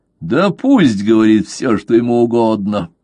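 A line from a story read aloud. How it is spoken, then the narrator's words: Relieved laughter. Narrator (Russian): засмеялся Левассер, все еще находясь под впечатлением огромного облегчения, испытанного им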